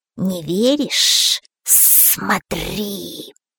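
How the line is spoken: Snake's hiss. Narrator (Russian): прошипела змея

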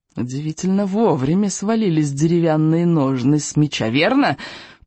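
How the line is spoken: Hissed, spitting. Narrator (Russian): прошипел он, брызжа слюной

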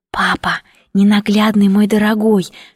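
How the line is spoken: Whispering. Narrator (Russian): шептала

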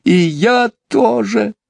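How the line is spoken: Sobbing into pillow. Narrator (Russian): рыдала Барбара, уткнувшись в подушку

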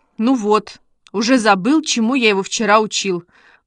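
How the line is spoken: Grumbled. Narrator (Russian): проворчал Костя

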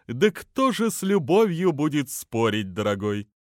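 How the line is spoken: Cheerful laugh, beak clicking. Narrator (Russian): Большой пеликан весело засмеялся, громко щелкая при этом клювом

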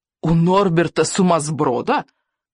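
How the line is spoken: Shouting. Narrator (Russian): закричал он

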